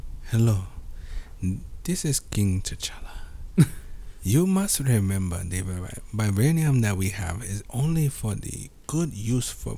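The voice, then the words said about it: Put-on Wakandan accent as T'Challa. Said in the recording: “I always wanted to do like a Jamaican or Wakanda accent ... I do a great Wakanda accent”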